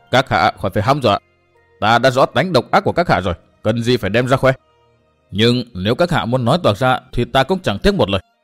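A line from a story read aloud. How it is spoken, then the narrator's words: Louder laughter. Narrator (Vietnamese): Tư Mã Minh cười to hơn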